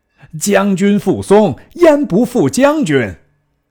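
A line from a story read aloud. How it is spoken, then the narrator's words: Shouting. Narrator (Chinese): 松大叫曰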